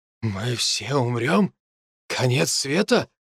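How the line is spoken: Confused muttering. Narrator (Russian): бормотал мужчина, не понимая, почему не было предупреждения об этом

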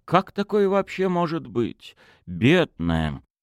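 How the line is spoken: Very quiet. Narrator (Russian): совсем тихо

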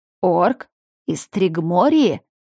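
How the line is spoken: Mocking. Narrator (Russian): добавил слишком насмешливо голос

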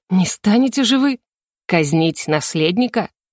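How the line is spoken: Scoffing snort. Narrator (Russian): хмыкнул его величество

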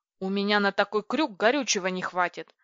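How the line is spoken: Irritated reply. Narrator (Russian): раздраженно отозвался пилот

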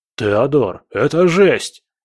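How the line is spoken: Shouting over explosions. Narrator (Russian): крикнул Боря, пытаясь перекричать грохот взрывов

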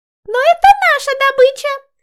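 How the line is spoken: Squeaky mermaid. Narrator (Russian): пропищала одна из русалок

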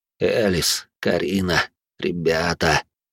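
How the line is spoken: Trembling whisper. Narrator (Russian): шептал он, и его голос дрогнул

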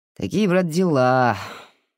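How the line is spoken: Father, sighing. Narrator (Russian): вздохнул отец

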